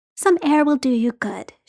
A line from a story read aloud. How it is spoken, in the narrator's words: she said, in a really motherly tone